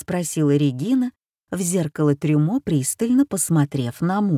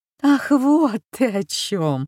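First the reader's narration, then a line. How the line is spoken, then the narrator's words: Laughing. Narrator (Russian): рассмеялась женщина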